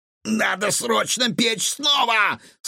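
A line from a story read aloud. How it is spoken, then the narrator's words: Shouted out. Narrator (Russian): повар выкрикнул что-то по-монгольски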